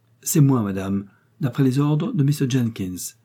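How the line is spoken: Plain. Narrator (French): répondit William

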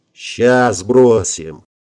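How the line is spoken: Growling. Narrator (Russian): прорычал Гельмут

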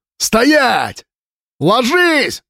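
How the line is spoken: Screaming. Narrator (Russian): завопил ему Слава

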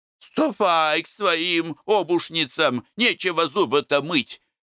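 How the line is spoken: Defiant giggling snap. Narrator (Russian): огрызалась домнушка, вызывающе хихикая

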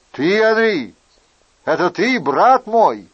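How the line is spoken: Exclaiming. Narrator (Russian): воскликнул другой всадник

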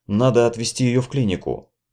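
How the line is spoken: Whispered in ear. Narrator (Russian): прошептал Питер на ухо

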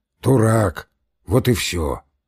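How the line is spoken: Hoarse wheeze. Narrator (Russian): просипел Емельян

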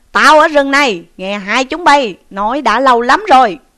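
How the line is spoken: Monk shouting. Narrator (Vietnamese): một vị hòa thượng quát rằng

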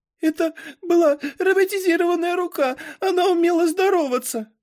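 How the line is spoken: Sobbing. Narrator (Russian): всхлипывала Бонни

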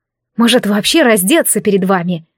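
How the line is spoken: Getting angry. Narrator (Russian): начала я злиться

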